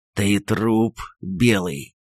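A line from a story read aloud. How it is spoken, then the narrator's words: Hissed, grimacing. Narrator (Russian): прошипел, морщась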